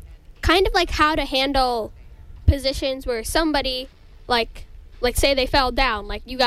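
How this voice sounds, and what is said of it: Usual voice. Nothing is said of it.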